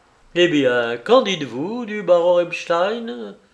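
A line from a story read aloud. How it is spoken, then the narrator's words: Exclaimed. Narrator (French): s'écria Lupin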